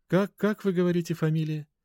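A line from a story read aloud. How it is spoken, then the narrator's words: Tired friendly woman on phone. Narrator (Russian): Усталым, но вполне доброжелательным голосом спросила женщина с той стороны телефонной трубки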